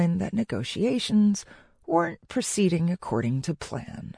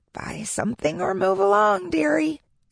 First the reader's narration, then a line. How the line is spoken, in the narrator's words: said a frail-looking woman